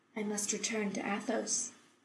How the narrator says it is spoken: Taylor said quietly

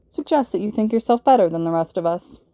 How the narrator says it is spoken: Gwen drew out the word

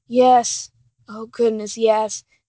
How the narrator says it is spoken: Dean mutters

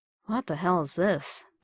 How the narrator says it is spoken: Bucky murmured

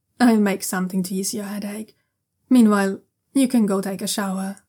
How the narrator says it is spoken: the black-cloaked envoy says firmly

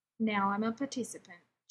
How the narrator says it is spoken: Jim said

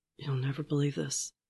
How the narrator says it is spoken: Father whispers

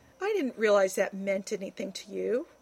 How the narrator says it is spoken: Rodney said, scoffing

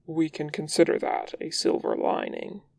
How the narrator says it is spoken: he murmurs, their lips brushing

